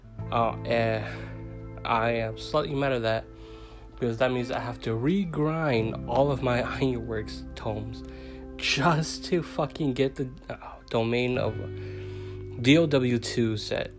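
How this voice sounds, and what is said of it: Tired-sounding voice. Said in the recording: “I sound tired, it's because it's three in the morning”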